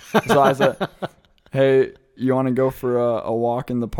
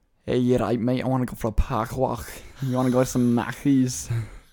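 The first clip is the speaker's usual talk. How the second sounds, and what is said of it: Put-on Scouse Liverpool accent. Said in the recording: “The accent is called Scouse. If you're a Liverpudlian, you're a Scouser, and it's kind of like a”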